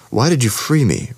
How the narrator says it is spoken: Ransom asked

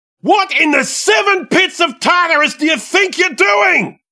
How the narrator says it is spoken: roared the once king of gods

